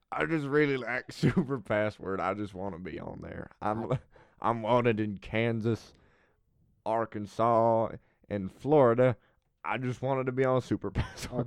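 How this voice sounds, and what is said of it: Southern-accent impression of a man. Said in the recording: “he is also Southern, and this is my impression.”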